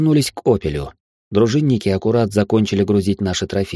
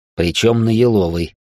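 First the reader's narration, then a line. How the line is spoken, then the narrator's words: Snorting. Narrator (Russian): хмыкнул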